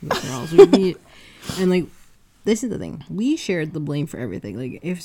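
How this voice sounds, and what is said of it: Usual voice. Nothing is said of it.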